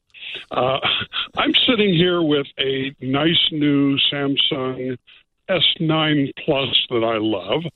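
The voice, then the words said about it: Put-on radio announcer voice. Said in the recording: “put on my radio voice.”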